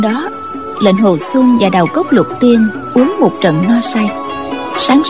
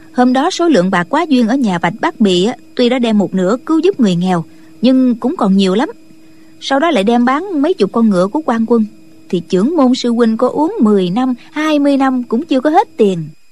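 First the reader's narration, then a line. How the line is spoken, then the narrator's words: Smiling. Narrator (Vietnamese): Nghi Thanh mỉm cười nói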